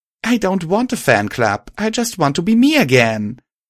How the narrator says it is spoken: I exclaimed

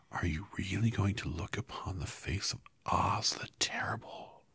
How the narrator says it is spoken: one of them whispered

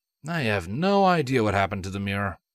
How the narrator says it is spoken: Flash sighed

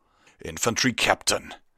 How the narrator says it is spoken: Stoneshot snarled

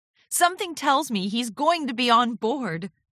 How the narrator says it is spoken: Twilight laughed

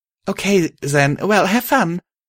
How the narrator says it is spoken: I stammered out

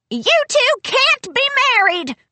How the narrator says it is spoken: Granny screeched

